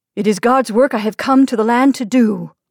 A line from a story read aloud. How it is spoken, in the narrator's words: he declared in a loud voice